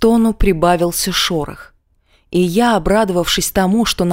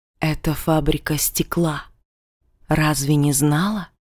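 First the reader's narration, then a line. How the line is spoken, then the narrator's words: Sudden hissing whisper behind. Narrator (Russian): Раздался вдруг за моей спиной свистящий шепот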